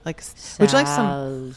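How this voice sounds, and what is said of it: Says the word very slowly. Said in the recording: “I do say salsa funny. I say it really slowly at home. I say it slowly.”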